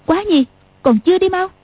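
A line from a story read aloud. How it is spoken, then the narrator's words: Sharp shout. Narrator (Vietnamese): Tiểu Long Nữ quát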